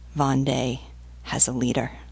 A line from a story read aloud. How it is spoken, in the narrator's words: Bois-Berthelot said softly to La Vieuville